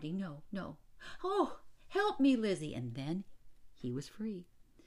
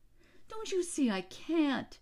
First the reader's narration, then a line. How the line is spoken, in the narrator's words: his mother cried